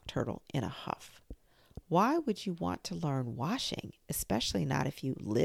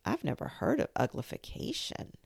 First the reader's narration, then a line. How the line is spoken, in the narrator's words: murmured Alice, very confused